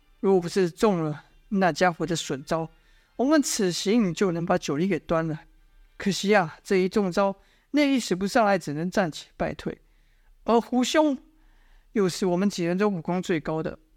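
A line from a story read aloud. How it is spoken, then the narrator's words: Sighing. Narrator (Chinese): 殷万青叹息了一声，说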